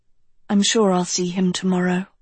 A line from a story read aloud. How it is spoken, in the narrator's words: she said softly